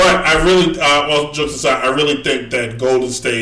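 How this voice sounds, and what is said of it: Usual voice. Nothing is said of it.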